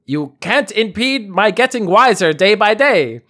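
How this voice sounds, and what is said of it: Put-on German accent. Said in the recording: “a German accent.”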